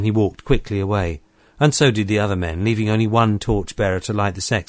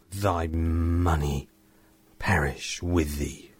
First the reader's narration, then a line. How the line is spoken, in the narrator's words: in a low voice he said